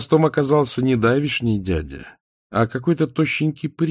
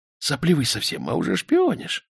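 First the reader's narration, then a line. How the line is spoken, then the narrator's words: Hissing. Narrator (Russian): прошипел Романов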